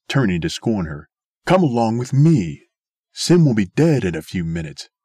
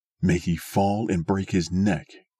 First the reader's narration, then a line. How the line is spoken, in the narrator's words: whispered Light, savagely